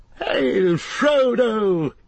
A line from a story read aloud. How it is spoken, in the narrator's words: he cried